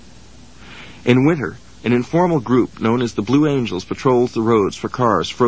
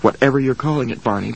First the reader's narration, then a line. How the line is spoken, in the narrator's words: said